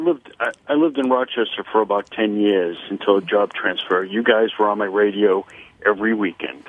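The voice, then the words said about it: Massachusetts accent. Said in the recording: “Got a Massachusetts accent, buddy boy. I can hear it.”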